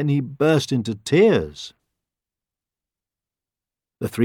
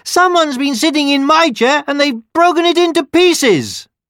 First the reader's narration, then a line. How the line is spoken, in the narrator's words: the baby bear cried